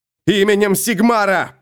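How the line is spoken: Shouted. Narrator (Russian): прокричал Феликс

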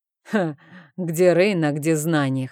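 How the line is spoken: Chuckling. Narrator (Russian): хохотнул

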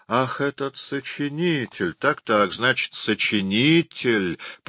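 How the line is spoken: Drawn-out. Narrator (Russian): протянул начальник управления

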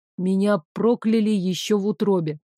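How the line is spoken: Plain. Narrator (Russian): сказал Дамиан

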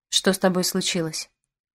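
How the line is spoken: Quiet but insistent. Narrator (Russian): Тихо, но настойчиво спросил дядя

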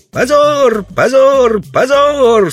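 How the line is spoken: Children shouting passionately. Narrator (Russian): со страстью закричали детишки

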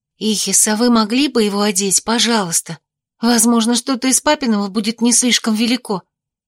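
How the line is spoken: Whisper. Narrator (Russian): зашептала я

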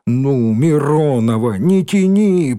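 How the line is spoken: Groaned. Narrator (Russian): простонал Рыжий

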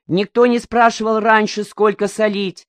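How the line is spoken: Shouted. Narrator (Russian): закричал Коника

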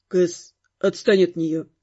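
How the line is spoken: Grumbled. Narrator (Russian): буркнул Каст

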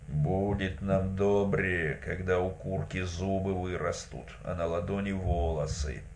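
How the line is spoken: Grumbling. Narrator (Russian): Лишь Герасим пробурчал

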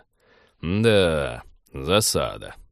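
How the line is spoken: Inspired drawl. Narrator (Russian): протянул пилот тоном человека, не остановленного трудностями, а напротив, вдохновленного

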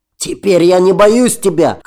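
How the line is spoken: Brave desperate shout. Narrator (Russian): крикнул Рон в храбром отчаянии

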